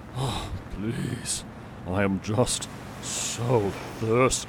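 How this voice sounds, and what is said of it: Exhausted, weary voice. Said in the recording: “He sounds a bit exhausted.”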